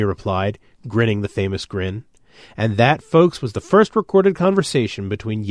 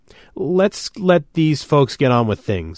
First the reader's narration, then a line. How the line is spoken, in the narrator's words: I said shakily